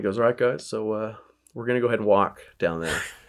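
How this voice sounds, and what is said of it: Imitates another person's voice, paced. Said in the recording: “you got the pace right on your impression”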